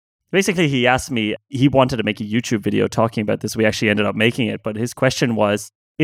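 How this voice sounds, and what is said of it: Usual voice. Nothing is said of it.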